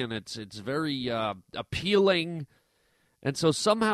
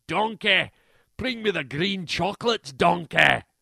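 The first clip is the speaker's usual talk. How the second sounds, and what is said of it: Bad Shrek impression. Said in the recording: “what is he, Shrek? ... Worst impression ever.”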